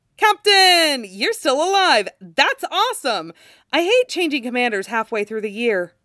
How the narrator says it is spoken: One staggering step, and then he steadies himself, and says brightly

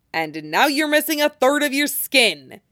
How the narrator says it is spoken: snaps

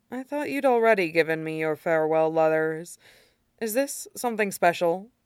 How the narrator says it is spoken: frowning faintly, and then says

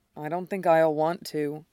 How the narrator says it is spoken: he admits quietly

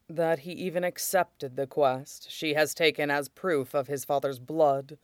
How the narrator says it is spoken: Shidan said quietly

